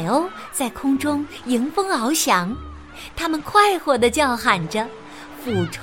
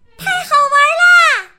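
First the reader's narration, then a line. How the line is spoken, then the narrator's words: Loud shout, two girls. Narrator (Chinese): 米莉和茉莉大声喊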